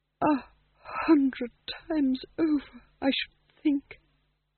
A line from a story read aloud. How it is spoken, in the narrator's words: said Bitola weakly